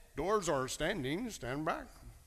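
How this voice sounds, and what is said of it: Imitates a computerized announcement voice. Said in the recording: “it was a very computerized voice... That wasn't a very good imitation”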